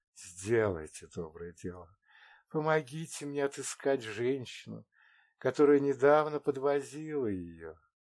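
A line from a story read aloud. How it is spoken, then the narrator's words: Soft enveloping voice in ear. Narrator (Russian): мягким обволакивающим голосом сказала ему прямо в ухо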